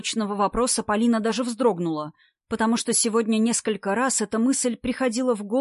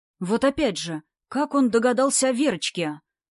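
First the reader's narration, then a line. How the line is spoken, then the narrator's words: Indignant whisper. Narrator (Russian): продолжал возмущенно шептать Сильвестр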